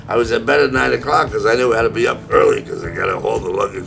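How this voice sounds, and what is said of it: Deep, rough early-morning voice. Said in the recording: “at 4:30 in the morning, I'm starting to have a radio voice ... It sounds like I got hammered last night”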